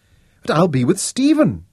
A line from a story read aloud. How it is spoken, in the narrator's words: pleaded